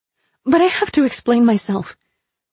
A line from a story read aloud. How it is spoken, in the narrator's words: I blurted before I could change my mind